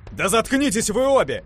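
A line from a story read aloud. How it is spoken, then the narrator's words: Uncontrolled yell. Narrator (Russian): Не сдержавшись, заорал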